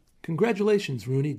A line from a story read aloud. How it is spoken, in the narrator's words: Digby said cheerfully